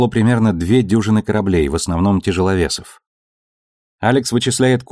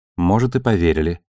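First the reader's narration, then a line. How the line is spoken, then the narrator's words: Sighing. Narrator (Russian): вздохнула Наоми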